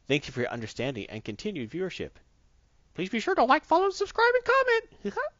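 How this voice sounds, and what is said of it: Mickey Mouse impression. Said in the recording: “you had to do the Mickey Mouse voice.”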